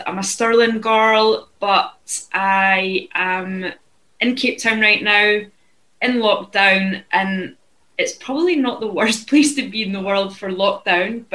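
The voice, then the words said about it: Scottish accent. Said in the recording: “You can probably tell from my accent that I'm also from Scotland.”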